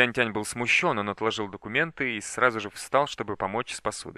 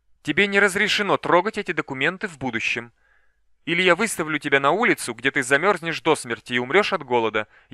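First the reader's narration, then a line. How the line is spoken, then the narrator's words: Furious shout. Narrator (Russian): яростно крикнула Джао Сюйцин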